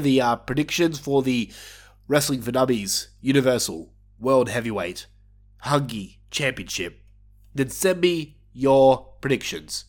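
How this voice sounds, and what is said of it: Nasal, blocked-nose voice. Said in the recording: “You can probably tell that I sound nasally as all hell. I'm suffering with some severe allergies at the moment. My nose is blocked to all hell”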